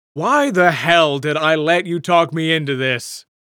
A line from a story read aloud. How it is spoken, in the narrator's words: Bert cried